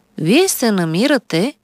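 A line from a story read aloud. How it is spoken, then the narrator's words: Calm doctor speaking. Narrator (Bulgarian): спокойно заговори лекаря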